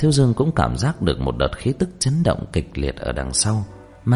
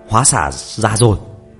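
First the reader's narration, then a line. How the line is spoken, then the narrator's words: Loud shout. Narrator (Vietnamese): Phi Phàm lớn tiếng hô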